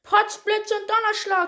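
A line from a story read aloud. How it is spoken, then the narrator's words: Shouting. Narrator (German): schrie sie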